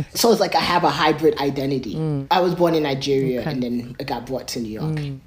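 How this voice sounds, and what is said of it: New York accent. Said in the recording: “Yes, I have a New York accent, that happens.”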